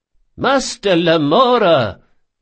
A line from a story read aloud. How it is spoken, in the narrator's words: cried Ibelius